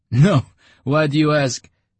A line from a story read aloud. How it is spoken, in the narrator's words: the occupant of the office laughed